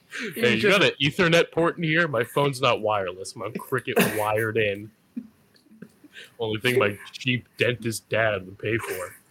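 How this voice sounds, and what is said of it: Extremely deep voice. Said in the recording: “your extremely deep voice”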